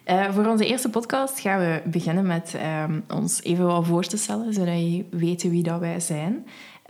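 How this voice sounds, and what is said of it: Ghent Flemish accent. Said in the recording (Dutch): “ik ben hier met Gent accent”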